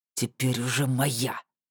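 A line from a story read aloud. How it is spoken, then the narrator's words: Through gritted teeth. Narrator (Russian): процедил сквозь зубы Ратмир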